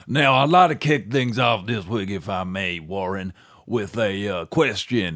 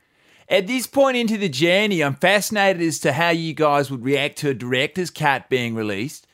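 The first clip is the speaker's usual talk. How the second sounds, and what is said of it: Imitates another person's accent. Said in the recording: “I should probably do his accent if I'm going to read his email.”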